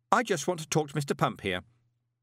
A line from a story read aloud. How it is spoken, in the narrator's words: added sharply